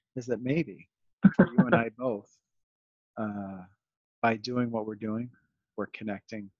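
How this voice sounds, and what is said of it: Calm, measured public-radio voice. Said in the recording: “my NPR voice”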